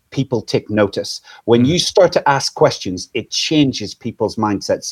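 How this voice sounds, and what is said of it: Irish lilt accent. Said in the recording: “listening to my Irish lilt today ... with an Irish accent”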